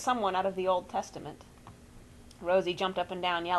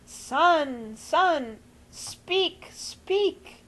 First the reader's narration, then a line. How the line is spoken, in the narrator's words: Grandma was wailing